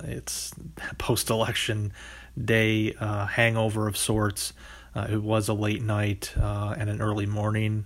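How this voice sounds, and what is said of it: Voice cracking, slightly hoarse. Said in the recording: “my voice is cracking a little bit”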